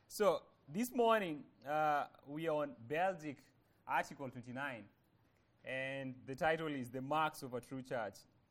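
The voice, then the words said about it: Speaker's own foreign accent. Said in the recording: “you guys have to bear with my accent. I say things differently.”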